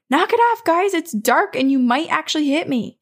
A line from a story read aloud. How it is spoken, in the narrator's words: he simply shouts